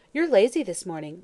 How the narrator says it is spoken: laughed Mary Louise

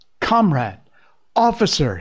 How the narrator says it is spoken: he cried

